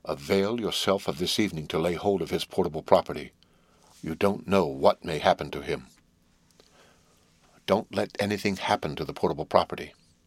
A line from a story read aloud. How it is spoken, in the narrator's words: added in a solemn whisper